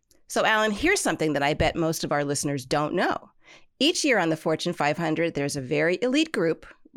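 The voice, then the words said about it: Congested voice from a cold. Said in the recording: “I've got a little cold today, so if I don't sound like the best co-host in the world, that's the only reason why”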